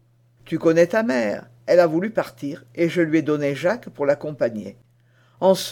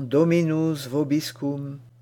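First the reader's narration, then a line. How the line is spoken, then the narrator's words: Very gentle voice. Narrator (French): d'une voix si douce que Madame Essette en pleurait de joie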